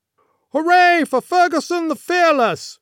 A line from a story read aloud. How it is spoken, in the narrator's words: shouted